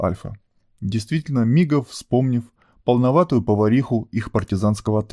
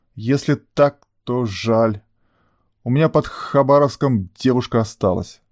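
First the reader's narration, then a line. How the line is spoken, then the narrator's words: Older brother grumbling. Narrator (Russian): проворчал старший брат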